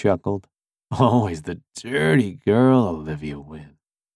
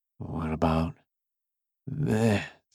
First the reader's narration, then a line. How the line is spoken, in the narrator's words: I rasped